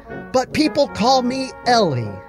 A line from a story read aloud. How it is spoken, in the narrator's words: practically screaming over the music